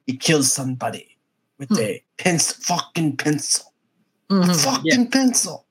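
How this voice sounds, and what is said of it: Put-on Russian accent sounding Italian. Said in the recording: “you still sound Italian ... This is my Russian accent.”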